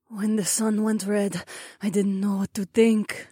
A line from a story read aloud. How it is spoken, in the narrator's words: Zoe murmured on my right